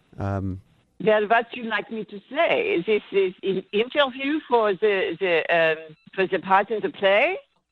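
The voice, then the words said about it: Not very good German accent. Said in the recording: “that was you doing a German accent. ... that's not very good, is it?”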